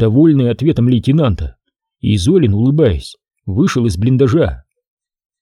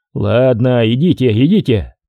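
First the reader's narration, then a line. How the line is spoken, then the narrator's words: Laughing. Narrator (Russian): рассмеялся Егорьев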